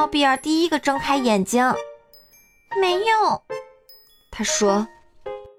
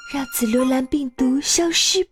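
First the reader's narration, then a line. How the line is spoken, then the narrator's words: Low voice. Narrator (Chinese): 巴豆低声地说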